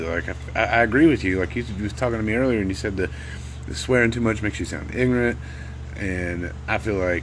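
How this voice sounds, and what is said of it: Strong Southern US drawl. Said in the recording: “The extreme southern accent drawl that I have”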